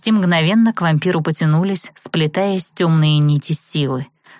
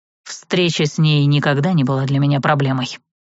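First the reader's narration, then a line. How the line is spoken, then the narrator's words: Cold reply. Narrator (Russian): холодно ответил вампир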